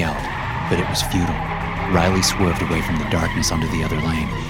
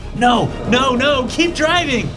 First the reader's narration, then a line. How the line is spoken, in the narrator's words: James yelled